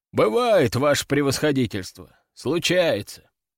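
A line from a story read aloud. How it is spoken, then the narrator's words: Sighing colonel. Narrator (Russian): вздохнул полковник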